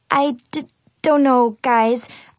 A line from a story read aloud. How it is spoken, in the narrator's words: I stammered